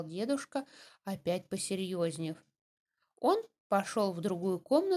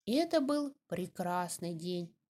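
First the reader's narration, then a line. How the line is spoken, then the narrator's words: Plain. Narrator (Russian): сказал он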